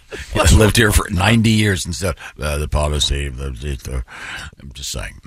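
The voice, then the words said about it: Imitates another person's voice. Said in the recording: “Never lost the accent. ... we're going to get to hear ... do his Henry Kissinger today.”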